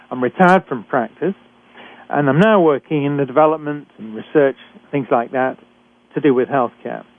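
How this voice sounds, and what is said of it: British accent. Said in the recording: “I'm a physician trained in Britain, and as you can tell from my accent”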